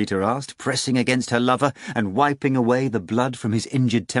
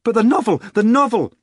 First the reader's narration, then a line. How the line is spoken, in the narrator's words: she shouted